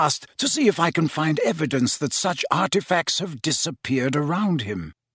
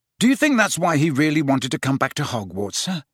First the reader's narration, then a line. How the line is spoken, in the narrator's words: said Harry